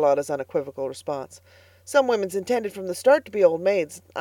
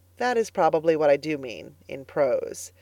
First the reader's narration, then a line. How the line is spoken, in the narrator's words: answered Anne gravely